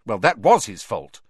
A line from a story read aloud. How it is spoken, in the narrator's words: said Hermione testily